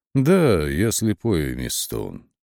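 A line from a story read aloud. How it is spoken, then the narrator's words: Perfectly calm agreement. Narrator (Russian): совершенно спокойно согласился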